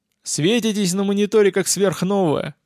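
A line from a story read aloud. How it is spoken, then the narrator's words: Chuckle over the radio. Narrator (Russian): хохотнул эфир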